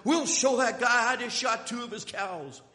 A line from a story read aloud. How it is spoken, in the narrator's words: Billy, his face red with anger, yells back